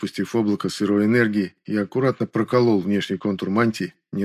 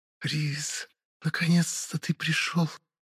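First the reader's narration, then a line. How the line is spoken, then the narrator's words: Quiet hiss. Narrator (Russian): тихое шипение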